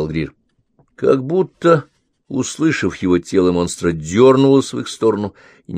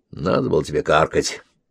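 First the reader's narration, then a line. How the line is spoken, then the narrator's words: Startled grumble. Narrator (Russian): невольно отпрянув, пробурчал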